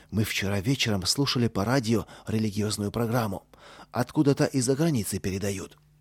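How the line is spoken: Low voice. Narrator (Russian): Костя сказал вполголоса

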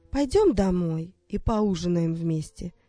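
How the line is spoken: Calm. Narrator (Russian): спокойно сказала она

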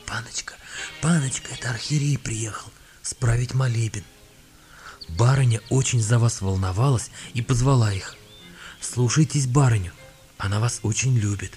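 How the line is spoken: Whispered. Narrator (Russian): кухарка шепотом сказала

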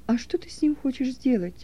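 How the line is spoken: Quiet question. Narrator (Russian): тихо спросил Стефан

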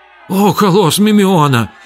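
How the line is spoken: Frightened exclamation. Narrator (Russian): испуганно воскликнул Хилон

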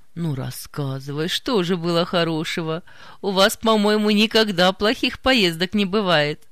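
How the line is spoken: Laughing reply. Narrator (Russian): Засмеялась в ответ Нина Матвеевна

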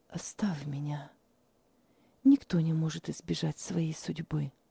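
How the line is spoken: Sick woman whispering. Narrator (Russian): прошептала больная

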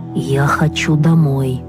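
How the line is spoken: Lifeless voice. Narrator (Russian): опять безжизненным голосом проговорил Вася

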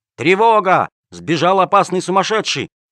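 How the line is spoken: Guards shouting from windows. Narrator (Russian): Из окон сумасшедшего дома выглядывали стражники и кричали

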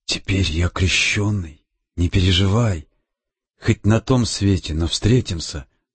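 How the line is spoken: Whisper. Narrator (Russian): Александр шепнул Лизе

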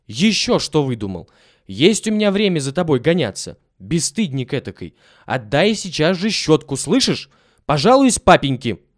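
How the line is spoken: Angry. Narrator (Russian): уже сердито сказала горничная

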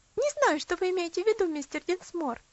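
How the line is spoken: Laughing reply. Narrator (Russian): ответила Луси, опять рассмеявшись

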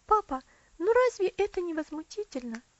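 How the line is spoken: Exclaiming. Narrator (Russian): воскликнула Элси

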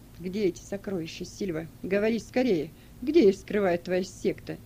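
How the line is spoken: Muffled, hollow question. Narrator (Russian): Прокл глухо спросил

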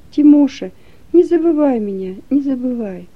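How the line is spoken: Sobbing quiet whisper. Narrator (Russian): рыдает и тихо шепчет

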